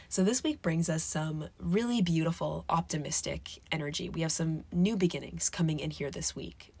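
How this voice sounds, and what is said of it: Sick, strained, labored voice. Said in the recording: “My voice is not in peak condition right now. I am a little on the sick side, so talking is a little laborious ... huffing and puffing and swallowing a lot”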